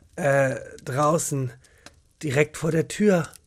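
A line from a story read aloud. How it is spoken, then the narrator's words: Tired murmur. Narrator (German): murmelte Jochen müde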